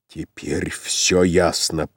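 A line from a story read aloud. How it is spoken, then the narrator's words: Growl. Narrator (Russian): прорычал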